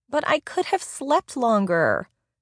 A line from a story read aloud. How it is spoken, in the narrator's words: Angel whined